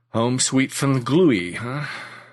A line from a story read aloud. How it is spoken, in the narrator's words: Stipe chuckled